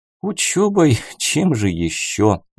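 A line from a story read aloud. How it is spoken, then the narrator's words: Sigh. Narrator (Russian): вздохнул я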